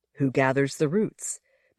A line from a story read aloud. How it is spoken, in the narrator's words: Bella Tenbellen asked